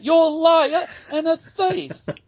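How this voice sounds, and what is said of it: Put-on accent, raised drunken voice. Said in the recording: “Excuse my accent. ... he was raising his voice, drunk out of his mind”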